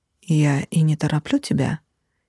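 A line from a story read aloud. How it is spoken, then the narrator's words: Soft, smiling. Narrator (Russian): мягко улыбнулся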